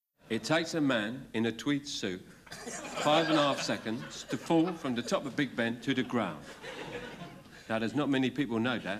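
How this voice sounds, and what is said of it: Not very good Michael Caine impression. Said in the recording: “Sellers does a Caine impression ... it's not a very good Michael Caine impression”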